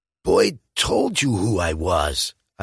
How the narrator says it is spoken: I wheeze

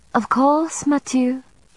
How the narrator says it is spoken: Isabeau murmured in her patented, subservient tone

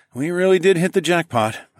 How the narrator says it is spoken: I sighed

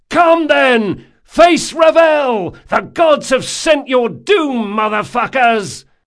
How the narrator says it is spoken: hollering as he ran

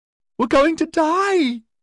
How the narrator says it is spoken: she shrieked

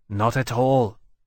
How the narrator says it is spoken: Temeraire said, in perfect agreement

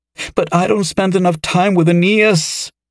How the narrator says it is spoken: she wailed

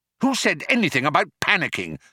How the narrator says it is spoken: snapped Arthur

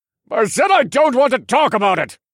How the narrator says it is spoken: Stryker roared in response

